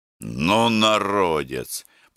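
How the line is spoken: Grumbling. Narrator (Russian): проворчал Гордей Евстратыч

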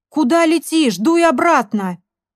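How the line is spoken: Companion shouting after someone. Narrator (Russian): крикнул вдогонку компаньон

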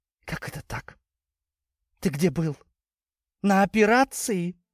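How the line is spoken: Tearful question. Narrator (Russian): Сквозь слезы спросила она

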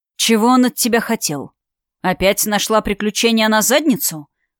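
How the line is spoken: Growl. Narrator (Russian): прорычал Даррелл

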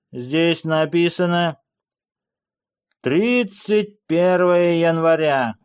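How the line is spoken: Read aloud loudly. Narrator (Russian): громко прочитал Джонни

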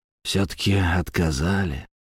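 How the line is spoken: Suddenly hoarse voice. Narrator (Russian): неожиданно хрипло проговорил Самохин

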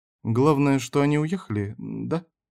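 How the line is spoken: Timid question. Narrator (Russian): спрашивал робко Мартин

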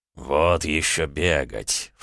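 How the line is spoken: Dragon's dismissive snort. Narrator (Russian): фыркнул дракон

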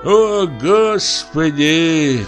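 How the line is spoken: Cook sighing. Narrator (Russian): вздохнул повар

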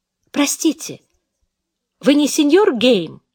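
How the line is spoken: Sudden, almost glad exclamation. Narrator (Russian): Воскликнула она вдруг почти обрадованно

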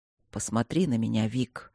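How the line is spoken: Surprisingly soft request. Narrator (Russian): попросил Мартин удивительно мягко

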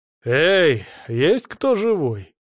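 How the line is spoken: Loud. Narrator (Russian): громко произнес я

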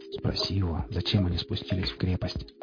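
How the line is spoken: Quiet speech. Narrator (Russian): тихо произнес он

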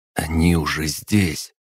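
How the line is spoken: Strangled whisper. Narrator (Russian): сдавленно прошептал он

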